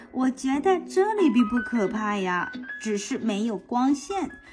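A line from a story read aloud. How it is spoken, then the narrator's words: Laughing. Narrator (Chinese): 蝙蝠笑着说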